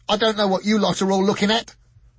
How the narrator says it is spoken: he shouted

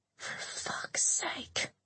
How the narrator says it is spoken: Dennis murmured

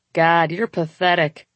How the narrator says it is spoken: Henry groaned

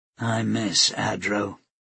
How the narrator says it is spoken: said quietly

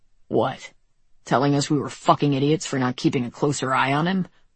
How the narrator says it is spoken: he snorts and says

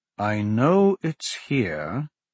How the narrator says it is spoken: Dante said slowly, because it feels like a Rawn is tapping a rod straight through the top of my skull

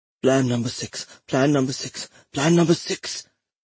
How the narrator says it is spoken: my mind whispered urgently

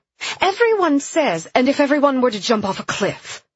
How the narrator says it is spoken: Sienna asked sharply

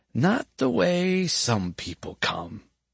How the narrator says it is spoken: croaked

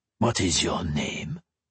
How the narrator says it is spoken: the man asked, as softly as if they'd met by chance and were exchanging pleasantries

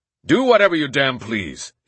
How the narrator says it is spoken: he bellowed

